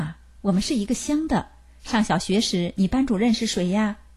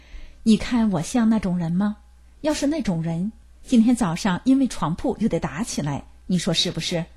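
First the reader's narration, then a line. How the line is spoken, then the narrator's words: Sighing question. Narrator (Chinese): 我长叹了一口气，问了一句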